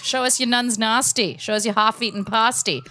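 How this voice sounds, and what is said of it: Put-on Australian accent. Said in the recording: “Australian accent ... God, you're good.”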